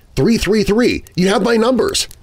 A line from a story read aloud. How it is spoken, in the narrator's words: exclaimed